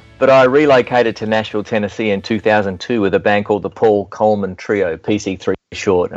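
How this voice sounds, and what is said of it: Australian accent. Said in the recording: “I'm speaking with a southern accent, I guess, a southern hemisphere accent because I was born in Melbourne, Australia”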